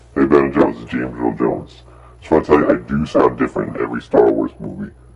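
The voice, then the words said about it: Deep-voiced James Earl Jones impression. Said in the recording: “James Earl Jones ... Any person with a deep voice.”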